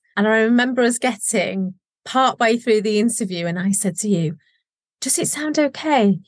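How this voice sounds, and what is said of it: Local regional accent. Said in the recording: “Wonderful local accent.”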